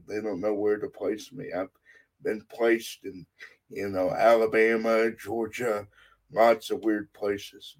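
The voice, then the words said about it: Texas accent. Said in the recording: “you can probably tell from my accent, I'm not a native Utahan. I'm from Texas”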